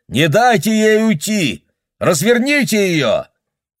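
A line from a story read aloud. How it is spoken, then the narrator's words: Shouting. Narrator (Russian): Бобби закричал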